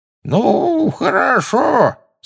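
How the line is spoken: Quavering old voice. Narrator (Russian): сказал дребезжащим старческим голоском

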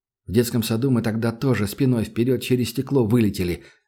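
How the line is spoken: Plain. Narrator (Russian): ответил Данил

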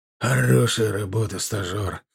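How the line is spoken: Hoarse rasp. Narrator (Russian): прохрипел капитан

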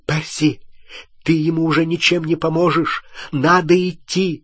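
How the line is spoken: Sharp cry. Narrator (Russian): Гермиона вскрикнула

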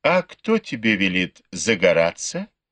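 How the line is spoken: Giggling reply. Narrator (Russian): хихикнула в ответ Пин-Эр

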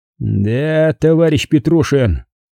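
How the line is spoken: Drawn-out reply. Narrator (Russian): протянул Иванов

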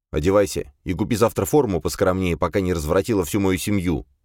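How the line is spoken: Stern. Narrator (Russian): строго сказал

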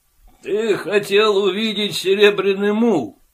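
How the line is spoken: Snorting, wry. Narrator (Russian): хмыкнул он

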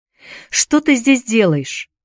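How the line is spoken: Shouted while struggling. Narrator (Russian): закричала она, пытаясь вырваться

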